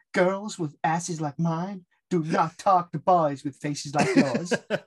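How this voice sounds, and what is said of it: Put-on accent quoting a character. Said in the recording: “Sorry for the accent, but I can't do this without it”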